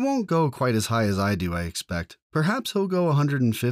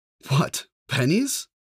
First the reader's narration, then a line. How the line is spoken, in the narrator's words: laughed the uncle